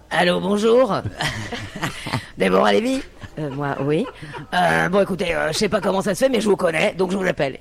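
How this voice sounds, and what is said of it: Imitates another person's voice. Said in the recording (French): “Je peux faire ta voix?”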